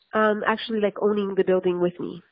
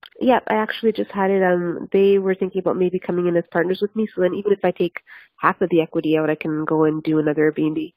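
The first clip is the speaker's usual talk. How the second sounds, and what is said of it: Speaks very quickly. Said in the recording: “said that so quickly.”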